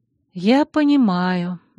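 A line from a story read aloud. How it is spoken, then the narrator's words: Sighing. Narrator (Russian): вздохнула я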